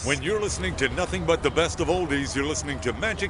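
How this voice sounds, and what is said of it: Deep announcer radio voice. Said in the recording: “Say something with that great radio voice”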